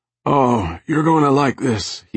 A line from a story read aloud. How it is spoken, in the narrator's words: wheezed